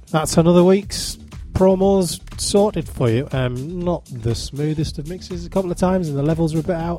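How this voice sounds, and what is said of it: Rough, worn-out voice. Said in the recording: “my voice is a little bit shagged as well”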